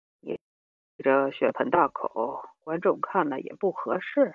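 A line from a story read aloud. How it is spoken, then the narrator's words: Sighing. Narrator (Chinese): 老板叹了口气说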